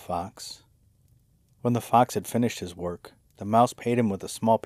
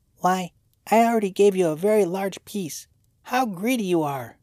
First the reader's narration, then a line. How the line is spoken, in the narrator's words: exclaimed the mouse